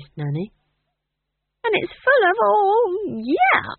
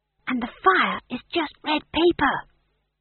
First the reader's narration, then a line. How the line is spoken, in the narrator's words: whispered McGrath